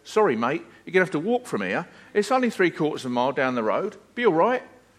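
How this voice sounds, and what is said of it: Put-on London accent. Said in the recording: “in his best London accent”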